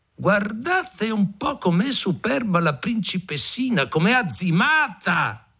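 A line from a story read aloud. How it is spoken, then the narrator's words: Mocking shouts and laughter. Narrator (Italian): gridavano, ridevano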